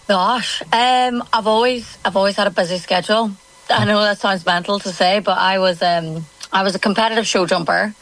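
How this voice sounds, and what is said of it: Northern Irish accent. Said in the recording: “Loving the accent. Loving the accent. ... originally from Northern Ireland ... the accent's not going anywhere”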